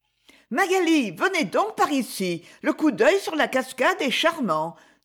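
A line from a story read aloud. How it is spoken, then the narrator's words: Exclaimed. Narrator (French): s'écria Lady Isabelle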